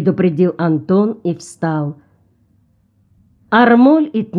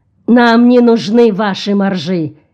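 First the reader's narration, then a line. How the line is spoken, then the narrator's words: Angry captain. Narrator (Russian): сердито заявил капитан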